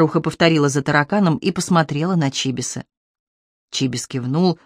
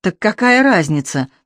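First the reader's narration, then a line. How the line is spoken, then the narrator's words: Cockroach grumbling. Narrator (Russian): таракан буркнул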